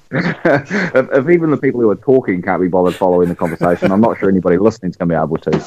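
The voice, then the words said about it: New Zealand accent. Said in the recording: “my accent ... He's got the same one ... New Zealand”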